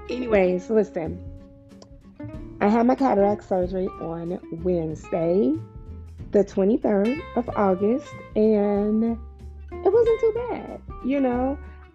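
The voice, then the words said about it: Raspy, scratchy voice. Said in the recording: “My voice is kind of a little raspy and scratchy because I need to drink some more water.”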